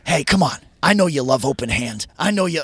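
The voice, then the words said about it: Imitation of another man's voice. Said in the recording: “I'm going to do a Ted voice.”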